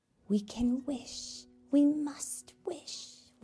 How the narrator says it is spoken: whispered the dolls

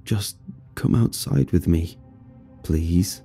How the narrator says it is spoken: Darren yet again mumbled

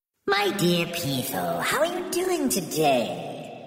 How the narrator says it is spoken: she cooed to the snake

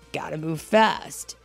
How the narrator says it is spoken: Sonic laughed at himself

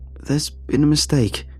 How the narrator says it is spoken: I sputtered

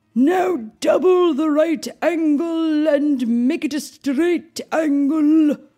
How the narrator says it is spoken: called out Sir Degrees

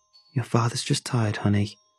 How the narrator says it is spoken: sighed

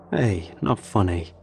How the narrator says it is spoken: says, but he chuckles

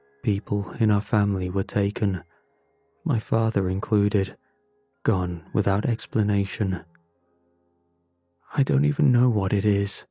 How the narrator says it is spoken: he said

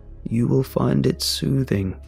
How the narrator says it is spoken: he said, his voice cold and distant

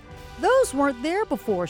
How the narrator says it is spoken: exclaimed

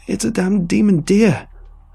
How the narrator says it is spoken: I yelled in answer

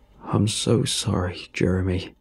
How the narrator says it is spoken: he said in a low, gruff voice

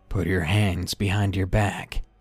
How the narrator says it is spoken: he said behind me in a monotone voice

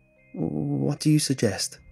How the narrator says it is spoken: stammered, trying to keep my drink down

